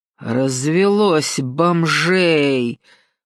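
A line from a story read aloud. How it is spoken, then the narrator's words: Loud, displeased voice. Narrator (Russian): проговорила громким, недовольным голосом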